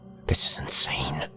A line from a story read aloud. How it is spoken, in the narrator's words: whispered